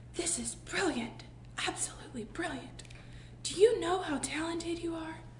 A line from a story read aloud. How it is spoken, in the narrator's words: Falker would whisper